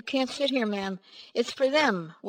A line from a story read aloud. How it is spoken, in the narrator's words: The driver sighed and said